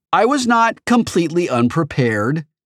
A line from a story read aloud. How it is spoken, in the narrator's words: I replied indignantly